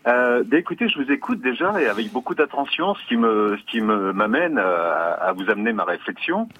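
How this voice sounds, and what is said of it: Southern French accent. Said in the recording (French): “je vous salue avec l'accent du midi”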